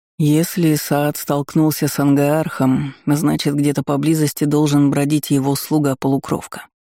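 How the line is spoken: Grim, matter-of-fact. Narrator (Russian): мрачно констатировал Аргвар

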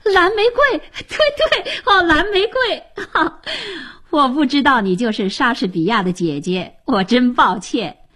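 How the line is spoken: Laughing. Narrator (Chinese): 吉姆跳起来笑着说

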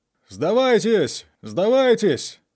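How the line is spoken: Soldiers shouting. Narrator (Russian): закричали англичане

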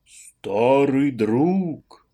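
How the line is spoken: Exaggerated deep bass. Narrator (Russian): слишком картинным басом, намного более густым, чем был у него от природы, ответил ему Иннокентий

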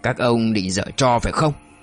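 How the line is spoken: Harsh, clipped. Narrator (Vietnamese): Duy gằn giọng

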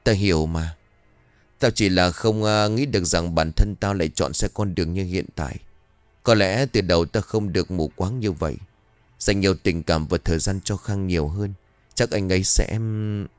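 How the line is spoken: Sighing. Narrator (Vietnamese): Tuyết liền thở dài rồi bảo

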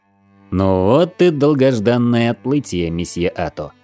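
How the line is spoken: Deep bass voice. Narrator (Russian): пробасил подошедший ко мне капитан Зираф

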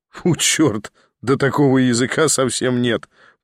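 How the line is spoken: Laughing. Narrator (Russian): продолжал смеяться Николя

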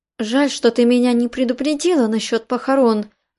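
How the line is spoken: Sigh. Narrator (Russian): вздохнула Мэридит

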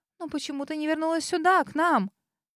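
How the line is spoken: Squeaky plaintive mutter. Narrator (Russian): пискнула Грейс, жалобным голосом пробормотала

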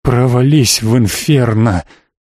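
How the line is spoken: Hoarse vampire rasp. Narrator (Russian): хрипит в ответ вампир

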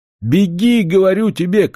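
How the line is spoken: Shouted. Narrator (Russian): крикнула Аннушка

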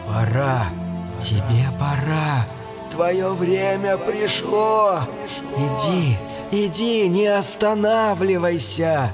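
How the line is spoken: Whispering. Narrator (Russian): нашептывая

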